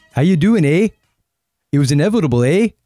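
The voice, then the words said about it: Bad put-on Canadian accent. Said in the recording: “a bad Canadian accent”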